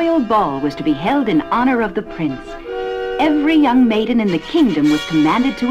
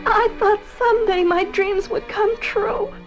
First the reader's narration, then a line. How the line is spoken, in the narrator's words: sobbed Cinderella